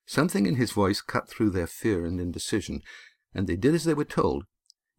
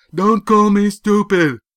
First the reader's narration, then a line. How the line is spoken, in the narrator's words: Yan shouted